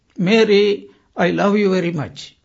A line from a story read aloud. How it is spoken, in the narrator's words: the husband shouted